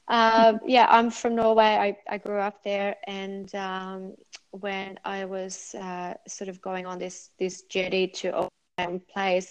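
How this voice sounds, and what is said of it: Norwegian-tinged, somewhat unusual accent. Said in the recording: “obviously I'm from Norway ... my accent is a bit strange nowadays”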